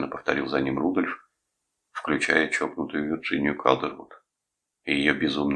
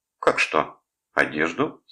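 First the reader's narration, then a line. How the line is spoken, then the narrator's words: Calm reply. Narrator (Russian): спокойно ответила она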